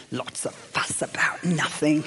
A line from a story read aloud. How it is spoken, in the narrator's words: he hissed